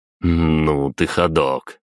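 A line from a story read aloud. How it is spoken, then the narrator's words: Amused snort. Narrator (Russian): хмыкнул я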